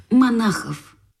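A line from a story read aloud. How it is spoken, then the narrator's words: Whispered. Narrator (Russian): шепнул Крендель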